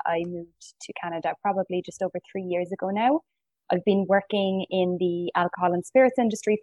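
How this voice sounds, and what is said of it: Irish accent. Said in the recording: “It's an Irish name ... As you can tell from the accent and from the name, I'm not from Canada.”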